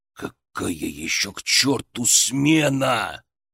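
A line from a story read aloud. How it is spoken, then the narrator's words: Growling. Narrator (Russian): зарычал Гроздин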